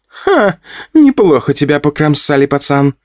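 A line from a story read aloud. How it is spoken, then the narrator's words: Laughing. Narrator (Russian): рассмеялась пчелка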